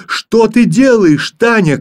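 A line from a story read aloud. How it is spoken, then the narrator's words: Frightened shout. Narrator (Russian): крикнул в испуге Филька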